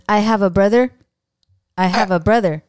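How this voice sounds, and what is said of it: Imitates another person's voice. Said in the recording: “my Kevin Costner impression ... don't worry about the accent”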